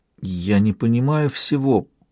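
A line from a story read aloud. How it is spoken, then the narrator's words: Mumbled. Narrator (Russian): пробормотала рядом Малта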